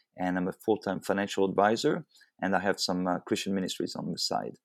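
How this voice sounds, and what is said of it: Very distinct non-local accent. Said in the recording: “I can tell that you're not native to Fort Myers, Florida, though. I hear a very distinct accent.”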